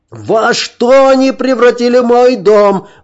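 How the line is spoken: Wailing. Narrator (Russian): вопил он

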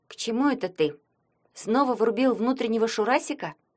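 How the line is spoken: Quiet question. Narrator (Russian): негромко спросила Лоткова

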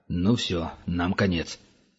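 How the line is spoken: Muttering. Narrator (Russian): забормотал Франц

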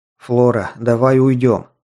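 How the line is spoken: Hoarse breathless exhale. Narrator (Russian): хрипло выдохнул Таманцев

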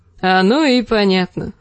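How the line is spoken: Laughing. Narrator (Russian): засмеялся он

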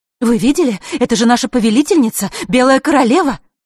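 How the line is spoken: Excited whispering fairies. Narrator (Russian): Взволнованно шептались между собой феи

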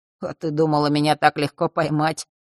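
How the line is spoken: Grumbling. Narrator (Russian): пробурчал

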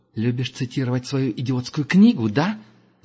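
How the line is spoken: Angry hiss. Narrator (Russian): зло прошипела Герда

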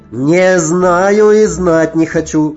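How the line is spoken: Shouting behind a door. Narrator (Russian): кричал кто-то за дверью

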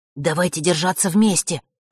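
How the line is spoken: Nervous whisper. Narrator (Russian): прошептал Ник, опасливо оглядываясь по сторонам

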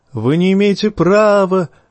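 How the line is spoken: Shouting after departing people. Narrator (Russian): крикнул узник в удаляющиеся спины

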